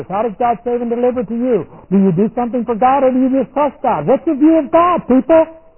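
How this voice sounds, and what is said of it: Shouting preacher. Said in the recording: “sorry for shouting... I shout”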